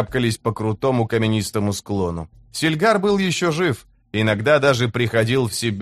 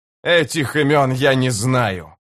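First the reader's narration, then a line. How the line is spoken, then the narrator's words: Growled. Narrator (Russian): прорычал Карса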